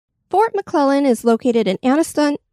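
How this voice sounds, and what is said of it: Odd made-up accent, not Southern. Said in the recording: “want to add an accent to everything today ... that's not even a Southern accent, so I'm not quite sure what you were doing there ... the ... accent”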